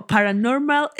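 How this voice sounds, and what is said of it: Mock English accent in Spanish. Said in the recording (Spanish): “como con acento de que en inglés ... Como inglés hablando español.”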